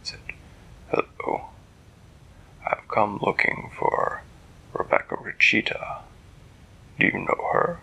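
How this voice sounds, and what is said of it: Deep character voice. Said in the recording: “a voice came from the roof. It was a deep voice.”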